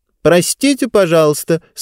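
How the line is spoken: Loud voice. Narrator (Russian): сказала она громким голосом

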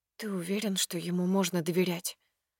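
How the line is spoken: Quiet question. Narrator (Russian): Интересуюсь тихо

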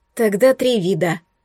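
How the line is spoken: Gloomy conclusion. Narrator (Russian): мрачно заключила я

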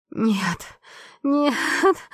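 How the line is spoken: Screaming until hoarse. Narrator (Russian): Я кричала до хрипа

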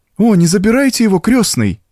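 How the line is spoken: Pleading. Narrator (Russian): взмолилась Урсула

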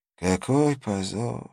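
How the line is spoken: Old man's tearful sigh. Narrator (Russian): вздохнул старик, и его глаза наполнились слезами

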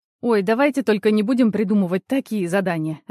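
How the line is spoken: Suggestion after laughing. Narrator (Russian): отсмеявшись, предложила Ирина

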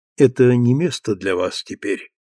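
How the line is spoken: Sad but gentle voice. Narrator (Russian): сказал он грустным, но ласковым голосом

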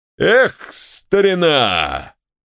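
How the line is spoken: Shouting, general. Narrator (Russian): крикнул генерал

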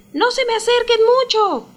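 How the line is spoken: Shouted. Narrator (Spanish): les gritó

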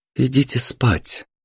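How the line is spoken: Soft, startled reply. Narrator (Russian): мягко отозвалась Марина, вырванная внезапностью звука из собственных дум

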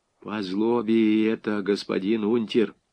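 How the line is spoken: Lifeless, dreading voice. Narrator (Russian): сказал безжизненным голосом Григорий Прокофьевич, уже заранее ощущая жар плетки на своей спине

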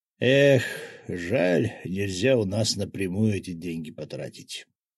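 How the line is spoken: Regretful sigh. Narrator (Russian): вздохнул Рыжий

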